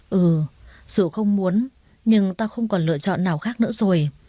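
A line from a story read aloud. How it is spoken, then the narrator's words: Sighing reply. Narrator (Vietnamese): Tôi thở dài gật đầu đáp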